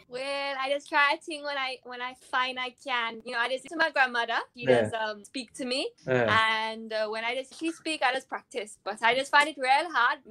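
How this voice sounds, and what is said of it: Put-on Trinidadian accent. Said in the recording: “I can do a Trini accent if you like. ... That is actually good.”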